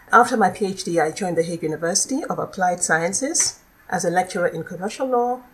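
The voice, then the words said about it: Nigerian accent. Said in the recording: “as you probably can hear from my voice, I'm, uh, I, I come from another country. I'm originally from Nigeria”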